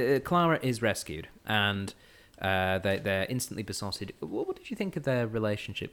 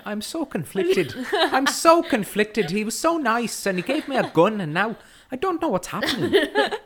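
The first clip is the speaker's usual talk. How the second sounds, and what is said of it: Put-on accent, not very convincing. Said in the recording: “I'm just going to say my accent is just as good as Michael J. Fox's.”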